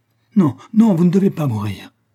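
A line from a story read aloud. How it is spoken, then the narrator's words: Exclaimed. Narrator (French): s'écria Madge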